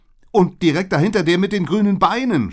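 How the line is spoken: Horrified scream. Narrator (German): schrie ich entsetzt

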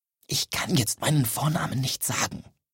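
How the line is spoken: Whispering man. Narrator (German): flüsterte er

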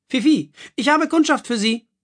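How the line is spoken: Called out. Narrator (German): rief Madame Marilou

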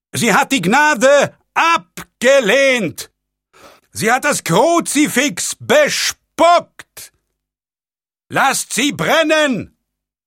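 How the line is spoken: Roaring voice from crowd. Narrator (German): brüllte eine Stimme aus der Menge

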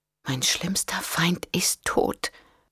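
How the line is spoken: Whispering to herself. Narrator (German): flüsterte sie vor sich hin

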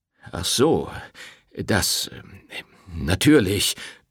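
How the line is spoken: Priest stammering. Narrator (German): stammelte der Pfarrer

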